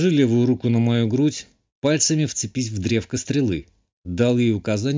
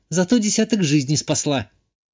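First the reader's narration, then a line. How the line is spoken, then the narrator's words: Snapped back. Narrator (Russian): огрызнулась Ишта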